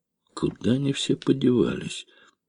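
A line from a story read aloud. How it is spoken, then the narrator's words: Puzzled mutter. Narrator (Russian): пробормотал таксист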